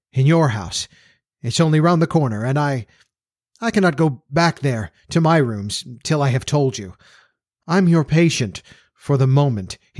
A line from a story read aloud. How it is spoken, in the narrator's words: added stammeringly